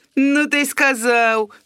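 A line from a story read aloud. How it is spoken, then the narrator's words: Mocking snort. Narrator (Belarusian): хмыкнул Пячкур еще больше кпліва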